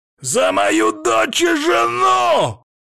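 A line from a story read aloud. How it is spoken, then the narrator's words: Sudden hysterical yell. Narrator (Russian): Внезапно истерично заорал Демьян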